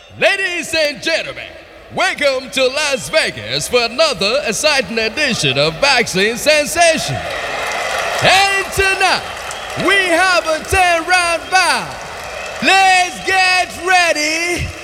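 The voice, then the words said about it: Radio announcer voice. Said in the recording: “Radio Accent.”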